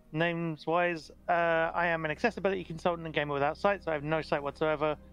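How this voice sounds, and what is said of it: British accent. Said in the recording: “I am from the UK, in case you couldn't tell by the accent.”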